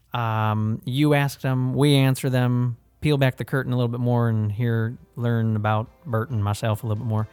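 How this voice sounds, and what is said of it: Put-on hick twang. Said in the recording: “I just kind of had that hick twang.”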